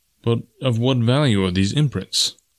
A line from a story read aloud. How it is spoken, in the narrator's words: asked Tarzan